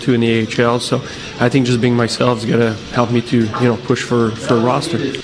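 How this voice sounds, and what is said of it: French accent. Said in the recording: “Do I sense a French accent there”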